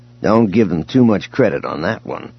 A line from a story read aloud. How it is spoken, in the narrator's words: Han growled